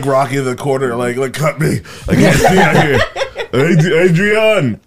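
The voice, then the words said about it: Poor imitation of Rocky's voice. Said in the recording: “I'm working on my Rocky impression ... it's not going good ... Yeah, it's pretty bad.”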